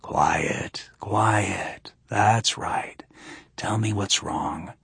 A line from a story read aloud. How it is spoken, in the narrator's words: whispered